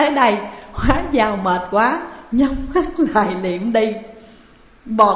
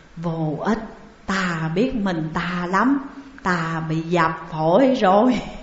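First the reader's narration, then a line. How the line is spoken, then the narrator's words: Weak faint whisper. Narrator (Vietnamese): Hóa Giao thều thào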